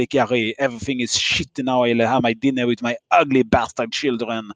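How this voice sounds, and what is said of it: Put-on French accent. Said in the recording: “my great French accent ... I heard you say, I hate my children in a French accent.”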